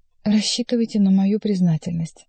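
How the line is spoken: Wavering voice. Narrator (Russian): добавила я дрогнувшим голосом, ибо уже угадала, в чем, по его мнению, должна была заключаться эта признательность

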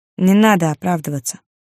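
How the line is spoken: Calm. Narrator (Russian): спокойно сказал

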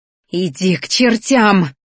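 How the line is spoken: Hissing. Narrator (Russian): зашипела Ди

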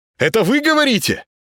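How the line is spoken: Unaccustomed loud shout. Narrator (Russian): Плохо слыша себя, с непривычки крикнул Володаров

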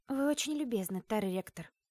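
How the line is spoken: Sigh. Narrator (Russian): вздохнула

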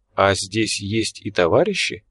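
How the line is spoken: Soft inquiry. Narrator (Russian): мягко поинтересовался Тургол

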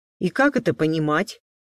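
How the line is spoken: Stern question. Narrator (Russian): строго спросил Алекс

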